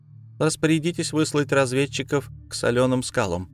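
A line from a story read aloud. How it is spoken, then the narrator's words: Plain. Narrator (Russian): сказала Нигалея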